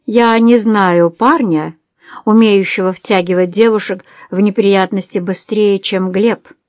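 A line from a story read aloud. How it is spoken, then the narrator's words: Plain. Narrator (Russian): сказал он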